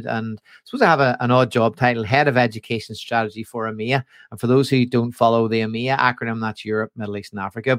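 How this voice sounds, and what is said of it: Northern Irish accent. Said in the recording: “I obviously have a slightly different accent to you. I'm based on the opposite side of the Atlantic in Texthelp's Belfast headquarters”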